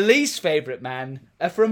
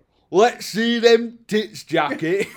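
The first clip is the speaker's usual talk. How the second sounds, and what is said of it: Put-on Birmingham accent. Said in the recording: “from Birmingham, mainly because of the accent.”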